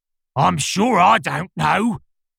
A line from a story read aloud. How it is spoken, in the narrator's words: the lion growled out